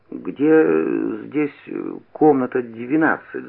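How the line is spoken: Stammering question. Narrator (Russian): запиная, спросил я

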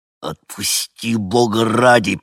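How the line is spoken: Hissed through gritted teeth, pained. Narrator (Russian): прошипел сквозь стиснутые от боли и напряжения зубы

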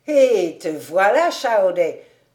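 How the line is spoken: Shouted from afar. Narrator (French): s'écria-t-il de loin

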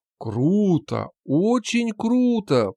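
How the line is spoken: Drawn-out drawl. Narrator (Russian): протянул я

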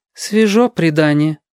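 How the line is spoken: Sighing mother. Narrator (Russian): вздохнула мама

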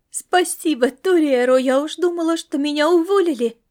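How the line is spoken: Exclaiming. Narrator (Russian): воскликнула она

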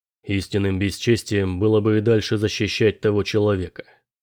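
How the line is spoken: Calm. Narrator (Russian): спокойно сказал он

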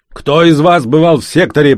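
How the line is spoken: Shouted. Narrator (Russian): прокричал он

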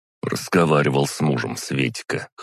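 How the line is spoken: Snort. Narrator (Russian): хмыкнул я

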